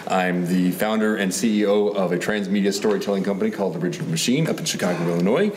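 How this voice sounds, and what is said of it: Smooth radio-announcer voice. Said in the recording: “awesome radio voice”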